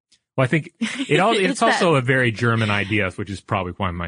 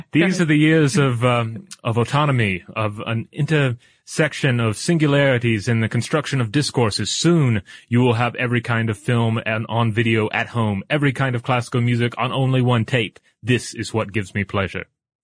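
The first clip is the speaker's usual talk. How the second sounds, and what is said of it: Drifts into a German accent. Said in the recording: “my accent became German halfway through”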